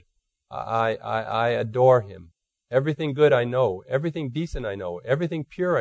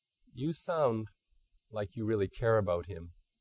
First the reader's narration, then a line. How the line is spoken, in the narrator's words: Strobel quietly commented